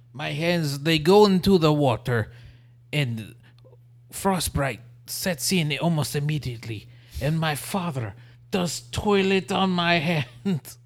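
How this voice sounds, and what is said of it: Muddled mix of put-on accents. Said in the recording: “How many different accents did you just combine right there? ... I'd like to apologize to all the people that I offended with that accent ... which accent I was trying to attempt”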